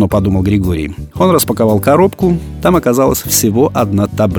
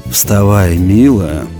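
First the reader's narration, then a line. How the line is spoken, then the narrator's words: Hoarse yet tender, dazed. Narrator (Russian): хрипло, но нежно сказал Григорий, сам не понимая, что говорит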